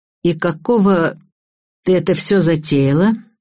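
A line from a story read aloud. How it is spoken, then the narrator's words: Man speaking through gritted teeth. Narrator (Russian): процедил сквозь зубы высокий стройный мужчина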